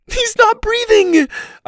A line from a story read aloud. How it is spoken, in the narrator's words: I screamed between sobs